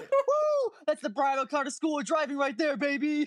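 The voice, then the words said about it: Screaming excitedly. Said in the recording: “I'm screaming”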